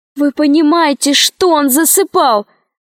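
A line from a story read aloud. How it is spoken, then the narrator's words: Shouted. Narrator (Russian): закричала Алиса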